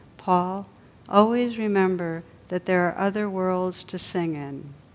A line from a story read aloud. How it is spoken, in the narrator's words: She must have sensed my deep concern, for she said quietly